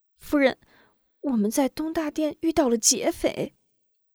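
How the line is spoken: Mournful, near tears. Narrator (Chinese): 秋菊哭丧着脸道

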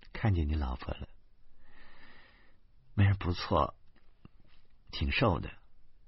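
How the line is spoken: Mournful muttering. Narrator (Chinese): 李爱家凄切的嘟囔

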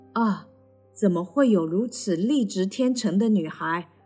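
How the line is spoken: Admiring exclamation. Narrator (Chinese): 王子，忍不住的赞叹

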